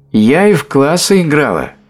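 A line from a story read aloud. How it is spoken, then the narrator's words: Shouting after them. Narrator (Russian): крикнула им вдогонку миссис Бентли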